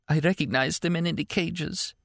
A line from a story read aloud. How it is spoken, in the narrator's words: the girl whispered hoarsely